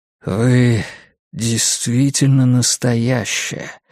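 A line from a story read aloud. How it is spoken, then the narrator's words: Soft breathy. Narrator (Russian): мягко выдохнул он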